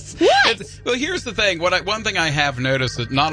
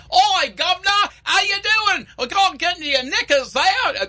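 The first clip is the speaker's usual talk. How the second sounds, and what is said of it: Exaggerated put-on British accent. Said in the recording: “not all British accents are created equal ... it's regional”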